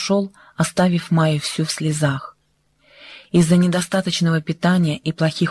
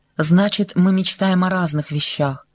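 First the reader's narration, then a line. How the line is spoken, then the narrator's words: Icy tone. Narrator (Russian): сказал ее жених ледяным тоном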